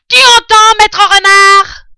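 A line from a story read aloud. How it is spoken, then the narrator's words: Shouting into a hole. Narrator (French): vociféra Bean en hurlant dans le trou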